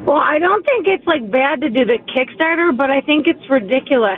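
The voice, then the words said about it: Buffalo, New York accent. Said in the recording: “Where's that fantastic accent from? ... I'm from Buffalo, New York.”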